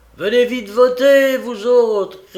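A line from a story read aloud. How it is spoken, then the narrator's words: Shouted. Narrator (French): cria Shembly Higgins, un compagnon de la bande d'Ely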